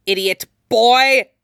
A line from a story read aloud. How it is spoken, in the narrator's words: his professor snarled